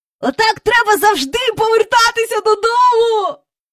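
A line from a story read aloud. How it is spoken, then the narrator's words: Twins squealing. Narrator (Ukrainian): верещали близнята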